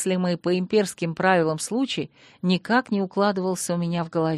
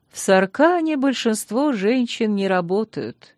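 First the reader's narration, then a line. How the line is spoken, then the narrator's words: Sad smiling tone. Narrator (Russian): печально улыбнулась хозяйка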